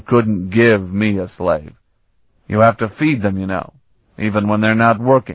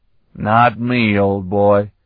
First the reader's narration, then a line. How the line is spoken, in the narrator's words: Stragan drawled